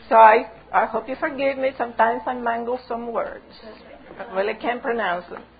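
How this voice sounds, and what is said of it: Cuban-Texan accented English. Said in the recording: “I have an accent. I have a Cuban-Texan accent.”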